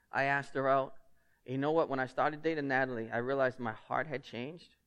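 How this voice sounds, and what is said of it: Lynn, Massachusetts local accent. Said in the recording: “my thick Lynn accent ... If you think my accent's bad now”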